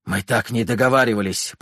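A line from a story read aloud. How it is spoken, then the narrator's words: Hoarse rasp. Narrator (Russian): прохрипел Михаил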